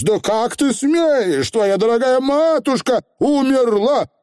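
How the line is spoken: Shouted. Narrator (Russian): крикнул Роланд

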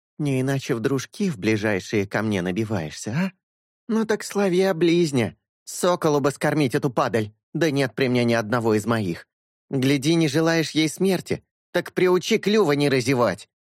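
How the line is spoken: Mocking snort. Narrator (Russian): Синель насмешливо хмыкнула

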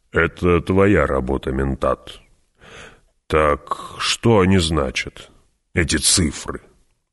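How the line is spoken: Deliberately cold. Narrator (Russian): Нарочито холодно барон уронил

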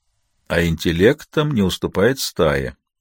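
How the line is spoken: Grim finish. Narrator (Russian): мрачно закончила древорещица

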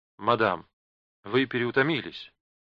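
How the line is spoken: Gentle. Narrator (Russian): мягко заметил детектив

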